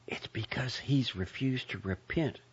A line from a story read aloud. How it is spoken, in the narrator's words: whispered